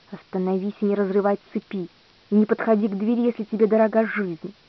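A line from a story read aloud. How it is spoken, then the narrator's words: Hiss, man in ermine. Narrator (Russian): человек в горностаях прошипел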